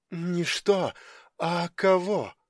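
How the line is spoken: Whispered. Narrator (Russian): прошептала она

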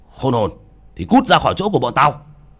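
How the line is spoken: Shouting. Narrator (Vietnamese): Họ quát

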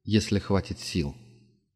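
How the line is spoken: Quiet. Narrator (Russian): тихо сказал Денис, добавив про себя

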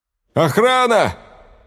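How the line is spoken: Shouting. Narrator (Russian): закричал он в коридор

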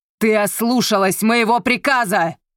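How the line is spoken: Shouting angrily. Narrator (Russian): кричал он на свою тетку

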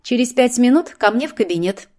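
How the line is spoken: Hissed through teeth. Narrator (Russian): процедила Злата

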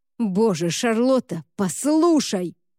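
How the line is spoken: Roar. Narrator (Russian): взревел Уорд

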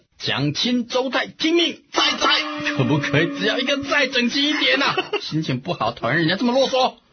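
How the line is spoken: Angry shouting. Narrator (Chinese): 孙权气得啊，他嚷着

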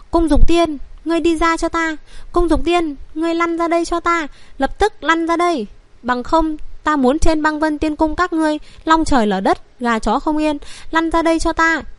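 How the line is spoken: Angry far-carrying shout. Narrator (Vietnamese): Tiếng hô với tức giận của Vân Triệt ở huyền lực kéo dài truyền ra rất xa xa

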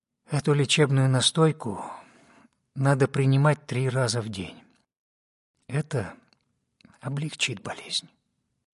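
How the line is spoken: Quiet. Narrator (Russian): сказала тихо Рашми

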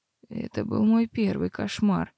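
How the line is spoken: Hoarse confession. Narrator (Russian): призналась я хрипло

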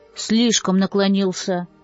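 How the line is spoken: Muttered under breath. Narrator (Russian): буркнул он себе под нос

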